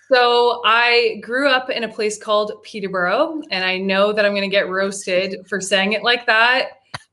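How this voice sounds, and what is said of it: Non-Scottish, English-sounding accent. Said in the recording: “that accent for a Scotland international does not sound Glasgow, Hoyk, or Aberdeen”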